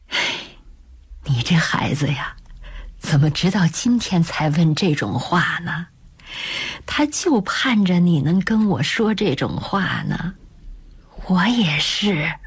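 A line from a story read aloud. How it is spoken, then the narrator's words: Soft sigh, reproachful. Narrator (Chinese): 他轻轻叹了口气，责怪地说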